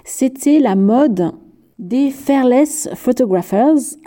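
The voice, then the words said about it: English words in French accent. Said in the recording (French): “je le dis avec mon accent.”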